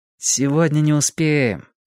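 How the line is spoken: Regretful sigh. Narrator (Russian): с сожалением вздохнул я

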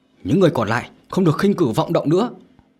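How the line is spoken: Frightened shout. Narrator (Vietnamese): Nhật xanh mặt mà quát lên

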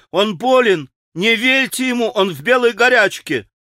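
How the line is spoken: Sudden shout. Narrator (Russian): Алеша вдруг закричал

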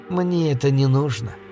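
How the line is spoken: Soft objection. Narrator (Russian): мягко возразила она

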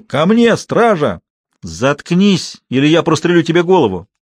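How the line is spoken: Shout. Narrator (Russian): Бурдо крикнул

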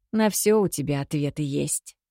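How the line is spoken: Grumbling. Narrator (Russian): проворчала я

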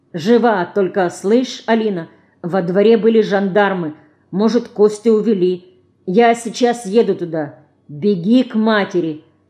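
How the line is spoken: Stern. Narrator (Russian): строго сказал Ленька

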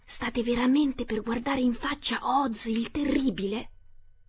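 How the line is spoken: Whispered. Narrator (Italian): uno di loro bisbigliò

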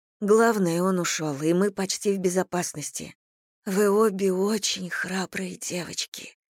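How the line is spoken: Hoarse whisper. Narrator (Russian): снова прошептала хриплым голосом

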